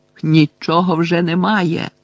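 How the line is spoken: Shouted. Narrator (Ukrainian): крикнув

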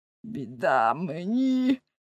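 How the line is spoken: Unhappy whisper in ear. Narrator (Ukrainian): шепнув нещасний дзвонар на вухо Уленшпігелеві

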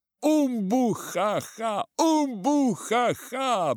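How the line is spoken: Hearty boisterous laughter. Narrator (Russian): Браво хохотал Томми

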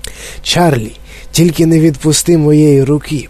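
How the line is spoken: Old man's whisper. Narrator (Ukrainian): прошепотів дідунь Джо

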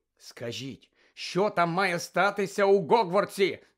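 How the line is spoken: Shouting from window. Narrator (Ukrainian): закричав з вікна Фред

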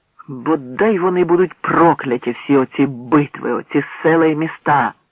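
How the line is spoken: Exclaiming. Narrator (Ukrainian): вигукнув Вигановський

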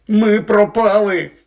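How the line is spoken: Despairing groan. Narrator (Ukrainian): простогнав він

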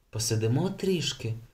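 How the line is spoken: Whisper. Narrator (Ukrainian): прошепотів Йорген

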